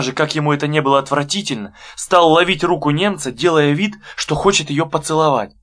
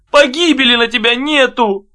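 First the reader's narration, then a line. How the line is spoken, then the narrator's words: Whimpering. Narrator (Russian): Он опять стал хныкать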